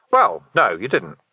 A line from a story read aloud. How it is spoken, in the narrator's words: said Vimes